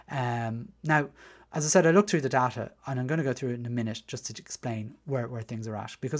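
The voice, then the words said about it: Dublin Irish accent. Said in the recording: “as you can probably tell from my accent, I was raised in Dublin 6”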